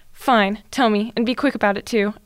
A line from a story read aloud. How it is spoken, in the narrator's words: Ebony snapped